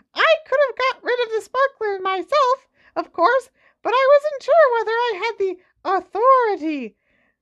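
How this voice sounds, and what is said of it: Squeaky little Professor Flitwick voice. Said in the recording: “said Professor Flitwick in his squeaky little voice.”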